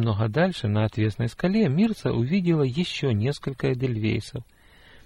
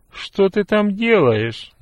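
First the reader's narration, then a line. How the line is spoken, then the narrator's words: Displeased question. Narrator (Russian): недовольно спросила она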